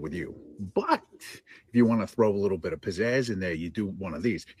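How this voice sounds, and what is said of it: Strong cabbie-like accent. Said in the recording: “his fucking accent is just fucking wrecking me. ... he's definitely a cabbie.”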